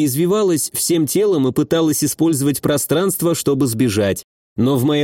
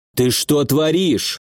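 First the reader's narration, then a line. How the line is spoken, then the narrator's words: Silent inner growl. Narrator (Russian): прорычал я мысленно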